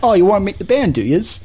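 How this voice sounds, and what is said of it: Put-on English accent. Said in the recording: “that's my English impression”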